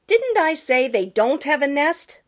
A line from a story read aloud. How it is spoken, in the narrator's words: sputtered Jenny